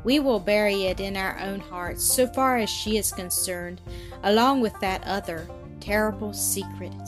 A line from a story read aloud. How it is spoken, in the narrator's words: sighed the mother in low, tremulous tones